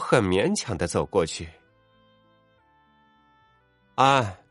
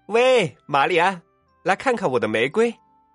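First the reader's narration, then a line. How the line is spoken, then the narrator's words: Calling out. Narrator (Chinese): 他叫道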